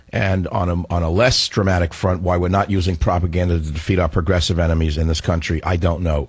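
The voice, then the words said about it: Weaker, flu-affected voice. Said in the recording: “my voice is a little less powerful than it normally is, it's because I'm suffering through a flu”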